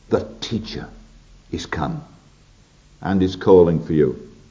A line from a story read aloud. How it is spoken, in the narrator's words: secretly, as the word is, quietly whispered to Mary